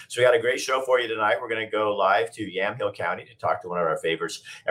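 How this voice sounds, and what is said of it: Hoarse, slightly weird voice. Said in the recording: “If it sounds like I'm a little hoarse, it's because I am. I've been yelling and screaming, had a little bit of a cold. So my voice is a little bit weird”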